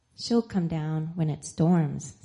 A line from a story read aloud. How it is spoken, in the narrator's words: said one